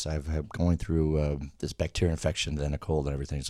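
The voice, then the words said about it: Rough, strained voice from illness. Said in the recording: “I'm a little bit rusty with the voice ... my voice is kind of shot”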